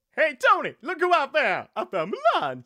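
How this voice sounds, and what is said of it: Cartoon dragon character voice. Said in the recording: “do a Mushu impression ... pretended to be Eddie Murphy”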